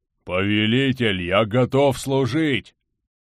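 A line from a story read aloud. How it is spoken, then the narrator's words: Deep bass voice. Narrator (Russian): пробасил орк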